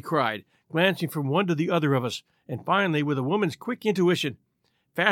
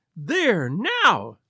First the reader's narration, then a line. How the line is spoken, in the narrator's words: she cried, throwing back her head and looking defiantly at Lestrade